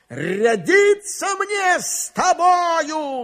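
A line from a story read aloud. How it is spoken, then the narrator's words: Shout. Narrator (Russian): закричал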